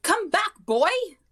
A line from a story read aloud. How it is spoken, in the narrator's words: she shouted